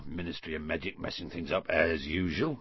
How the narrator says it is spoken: Hagrid muttered

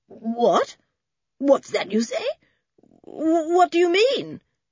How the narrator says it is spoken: stammered Mr

